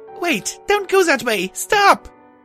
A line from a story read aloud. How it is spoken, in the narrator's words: I screamed